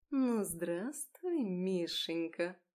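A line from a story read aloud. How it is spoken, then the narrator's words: Sweetly venomous purr. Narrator (Russian): Промурлыкала она голосом, полным яда и сахара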